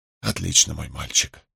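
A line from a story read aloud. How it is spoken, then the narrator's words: Whispered. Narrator (Russian): прошептал Вудворд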